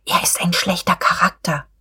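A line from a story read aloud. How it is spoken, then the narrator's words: Whispered. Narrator (German): Frau von Vulko wisperte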